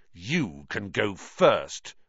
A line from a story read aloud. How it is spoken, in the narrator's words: Ron snarled